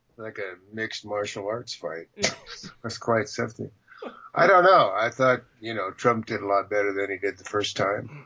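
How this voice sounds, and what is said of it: Rough, sick-sounding voice. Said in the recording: “A little bronchitis, so pardon my voice.”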